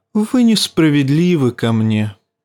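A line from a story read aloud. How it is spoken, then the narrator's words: Sad. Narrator (Russian): печально сказал Варис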